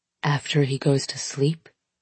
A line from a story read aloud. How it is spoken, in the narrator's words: he whispers